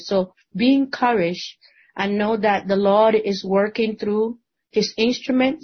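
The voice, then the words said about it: Spanish-speaker's accent in English. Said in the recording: “seems to me from your accent you speak Spanish”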